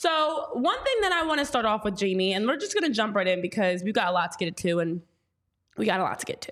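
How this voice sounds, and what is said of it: Usual voice. Nothing is said of it.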